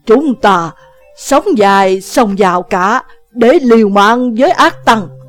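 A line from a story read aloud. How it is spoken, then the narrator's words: Old man's loud cry. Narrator (Vietnamese): Lão liền lớn tiếng hô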